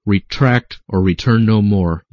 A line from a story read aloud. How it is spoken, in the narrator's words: he finally declared in a haughty and angry tone